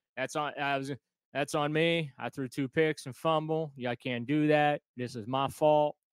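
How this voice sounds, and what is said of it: Imitates another person's voice. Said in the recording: “I was going to do the Jacoby Brissett impersonation there ... Let's hear your impersonation.”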